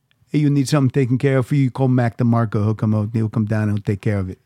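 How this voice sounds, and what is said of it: Bad mobster gangster voice impression. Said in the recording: “That's an awful impression. ... That's my good Goodfellas impression.”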